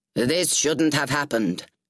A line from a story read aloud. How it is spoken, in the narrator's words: Grauer exclaimed, his voice echoing